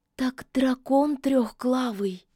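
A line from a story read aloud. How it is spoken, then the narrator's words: Awed, frightened whisper. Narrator (Russian): С благоговейным ужасом прошептала Кикимора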